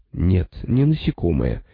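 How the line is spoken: Gentle insistence. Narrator (Russian): мягко настаивала Джейла Воу

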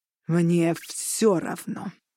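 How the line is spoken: Growled. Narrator (Russian): прорычал Арланд

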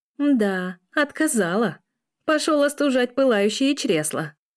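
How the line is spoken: Laughing. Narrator (Russian): хохотала Лиля

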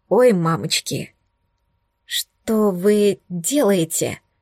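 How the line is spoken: Hoarse, squeaky question. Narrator (Russian): Сипло одновременно с тем пискляво спросила я

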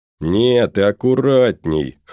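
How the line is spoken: Chuckling. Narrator (Russian): хохотнул Моня

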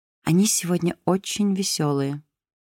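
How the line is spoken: Quiet. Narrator (Russian): тихонько сказала ей Айрис

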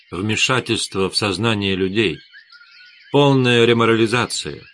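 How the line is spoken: Sighing reply. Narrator (Russian): Эдгар вздохнул и ответил

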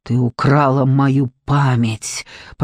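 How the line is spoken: Hissing. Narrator (Russian): прошипел он

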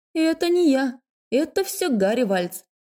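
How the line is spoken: Laughing. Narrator (Russian): рассмеялась я

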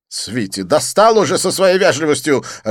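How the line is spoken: Irritable snapping. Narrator (Russian): огрызнулся Дидье

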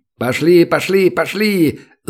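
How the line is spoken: Shouting urgently. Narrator (Russian): заорал он

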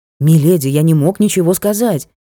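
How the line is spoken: Hurried reply. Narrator (Russian): торопливо ответил герцог

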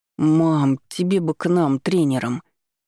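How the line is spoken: Grumbling son. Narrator (Russian): Пробурчал сын

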